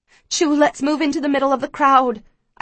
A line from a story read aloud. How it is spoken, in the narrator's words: I plead with her